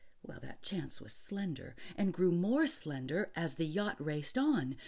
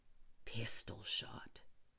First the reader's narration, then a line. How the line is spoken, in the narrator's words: muttered Rainsford, swimming on